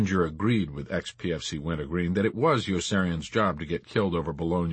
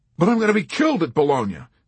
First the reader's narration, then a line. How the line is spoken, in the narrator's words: Yossarian pleaded